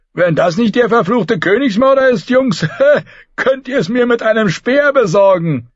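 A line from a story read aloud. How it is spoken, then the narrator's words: Called out, gray warrior. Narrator (German): rief ein grauer Krieger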